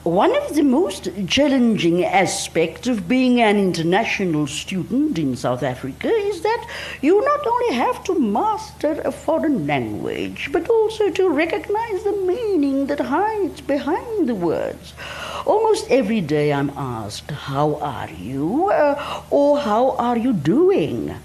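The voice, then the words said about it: Weak attempted Hungarian accent. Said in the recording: “my Hungarian accent is up to nothing, so I will try my best”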